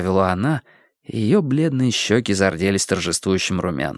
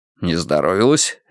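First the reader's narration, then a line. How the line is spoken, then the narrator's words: Sharp, startled. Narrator (Russian): резко встрепенулся Страйк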